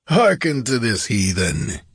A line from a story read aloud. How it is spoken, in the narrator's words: bellowed